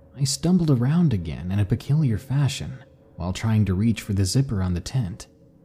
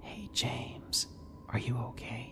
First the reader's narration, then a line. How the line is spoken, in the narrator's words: a whisper called out